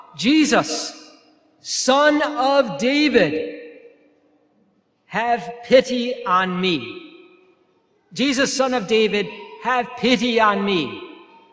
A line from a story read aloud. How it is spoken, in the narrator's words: Bartimaeus heard that Jesus of Nazareth was passing through, he began to shout